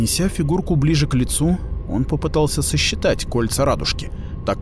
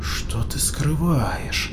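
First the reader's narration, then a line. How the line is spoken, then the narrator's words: Muttered. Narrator (Russian): пробормотал Тарсон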